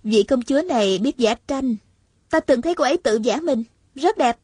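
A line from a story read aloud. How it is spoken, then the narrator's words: Smiling reply. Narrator (Vietnamese): Hạ Thiết Thủ mỉm cười đáp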